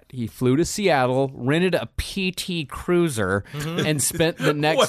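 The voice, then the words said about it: Disdainful, contemptuous tone. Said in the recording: “Why did you say that with such disdain? ... That was one of the most disdained accent that I've ever heard you have.”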